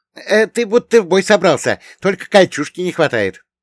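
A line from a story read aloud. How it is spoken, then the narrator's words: Cheerful snort. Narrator (Russian): весело хмыкнул Богдан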